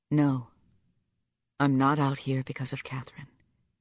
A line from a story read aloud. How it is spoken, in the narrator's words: he said, almost whispering the words